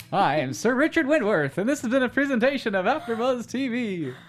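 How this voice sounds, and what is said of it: Mock announcer voice. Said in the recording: “I always have to mock the voice. I love it. Such a great announcer voice.”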